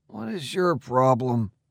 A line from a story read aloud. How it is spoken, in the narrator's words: I muttered